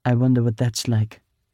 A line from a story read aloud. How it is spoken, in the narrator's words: Victoire said dryly